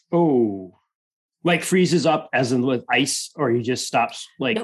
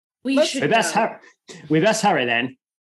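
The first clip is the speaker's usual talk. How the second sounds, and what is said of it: Put-on character accent. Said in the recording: “I'm never going to get used to this accent.”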